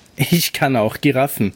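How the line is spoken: Shouting with loud laugh. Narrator (German): rief mit einem lauten Lachen

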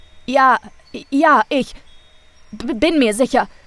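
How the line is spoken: Stammering. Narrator (German): stammelte Rolf

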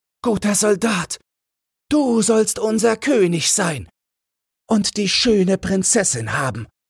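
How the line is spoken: Startled crowd calling out. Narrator (German): erschraken die Soldaten und alles Volk rief

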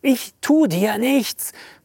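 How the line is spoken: Panting. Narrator (German): keuchte

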